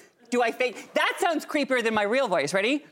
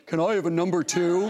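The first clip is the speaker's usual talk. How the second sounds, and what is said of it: Fake deep puppet-like voice. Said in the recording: “fake a deep voice ... that sounds like a character, like, on a puppet show ... It sounds more like a Muppet.”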